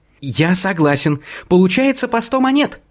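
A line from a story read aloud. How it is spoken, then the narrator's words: Squeaky voice. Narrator (Russian): запищал Тонкий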